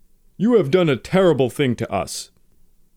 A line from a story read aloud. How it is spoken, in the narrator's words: Hayashi shouted